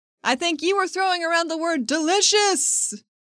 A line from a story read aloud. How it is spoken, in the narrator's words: She shouts to be heard on the first floor